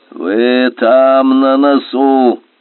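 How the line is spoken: Creaky chieftain's voice. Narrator (Russian): проскрипел от правила голос Ракни, вождя

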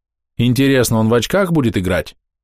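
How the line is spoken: Snort. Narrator (Russian): хмыкнул Твингер

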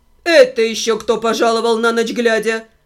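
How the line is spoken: Stern. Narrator (Russian): Строго проговорила моя компаньонка

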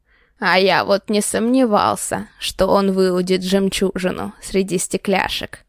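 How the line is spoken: Chuckling old man. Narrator (Russian): Хохотнул дед

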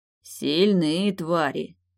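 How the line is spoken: Hiss through teeth. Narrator (Russian): сквозь зубы прошипел Крислав

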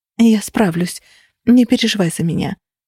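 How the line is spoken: Effortful whisper. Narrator (Russian): прошептала, снова собираясь с силами

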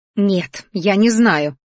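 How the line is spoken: Growled. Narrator (Russian): рыкнула тетя

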